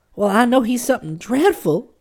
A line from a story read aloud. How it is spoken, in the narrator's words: she wailed